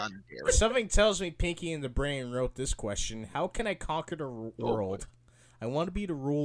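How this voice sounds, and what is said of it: Usual voice. Nothing is said of it.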